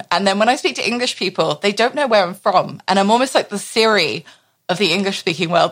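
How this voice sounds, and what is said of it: English-ish international accent. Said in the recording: “I have this accent thanks to my teachers ... you sound English-ish, but we don't know where you're from ... my parents have an English tilt as well”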